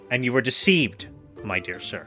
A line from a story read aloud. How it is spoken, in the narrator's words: replied Aramis, coldly, very little sensible to the reparation